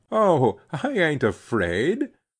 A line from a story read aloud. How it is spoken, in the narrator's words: she laughed